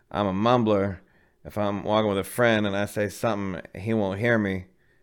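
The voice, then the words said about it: Imitates another person's voice. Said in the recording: “I'm doing like a little Hedberg impersonation... you do a pretty good Hedberg impression”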